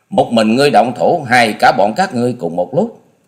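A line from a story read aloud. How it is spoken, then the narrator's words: Cold scoffing. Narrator (Vietnamese): cười nhạt nói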